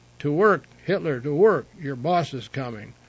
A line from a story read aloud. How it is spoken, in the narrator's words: others exclaimed ironically